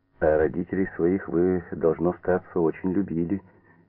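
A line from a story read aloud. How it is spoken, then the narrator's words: Quiet, with seasoned conviction. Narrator (Russian): тихо проговорила Фаина Егоровна с той убежденностью, какая складывается у людей, много повидавших на своем веку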